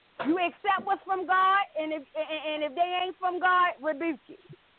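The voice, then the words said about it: Strong country Southern accent. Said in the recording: “You are country, boy. ... Y'all hear that accent? ... Country than a motherfucker.”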